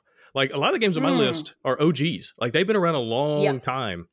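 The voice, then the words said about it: Alabama Southern accent. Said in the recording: “My Alabama accent does not let me say those letters next to each other.”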